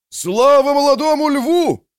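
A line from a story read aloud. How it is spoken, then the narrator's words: Shout amid cheering crowd. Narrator (Russian): закричал Барнива среди хора восторженных приветствий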